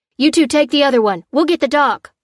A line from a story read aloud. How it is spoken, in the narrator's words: cried one of the men